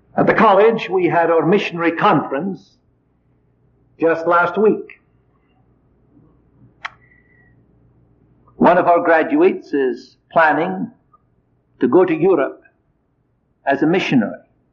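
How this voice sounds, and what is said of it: Scottish accent. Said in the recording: “imitate my accent ... there must be some Scottish blood in you”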